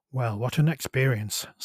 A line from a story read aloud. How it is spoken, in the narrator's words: sighed Isabella